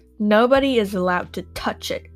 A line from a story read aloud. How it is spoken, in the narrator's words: she said harshly